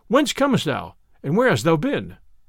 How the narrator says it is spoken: cried the sheriff

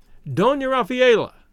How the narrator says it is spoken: he shouted

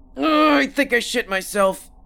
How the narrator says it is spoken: Kenny grunted

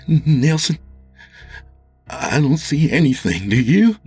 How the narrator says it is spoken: Jimmy said nervously

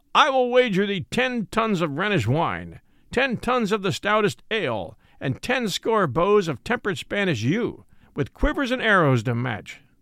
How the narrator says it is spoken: he said, amidst his laughter

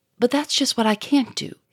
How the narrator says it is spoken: he cried

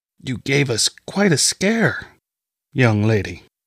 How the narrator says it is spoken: Mother Gwendolyn croaked

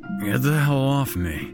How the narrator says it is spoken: Jack grunted

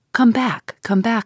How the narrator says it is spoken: I said

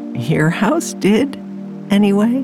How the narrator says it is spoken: replied the little old woman with a laugh

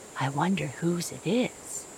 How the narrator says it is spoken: whispered

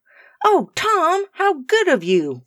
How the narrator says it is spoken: cried Rose

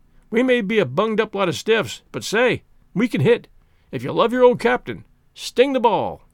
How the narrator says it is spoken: said Spears savagely

